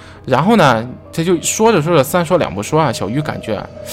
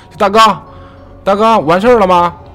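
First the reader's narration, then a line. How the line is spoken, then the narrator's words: Calling out. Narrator (Chinese): 喊两声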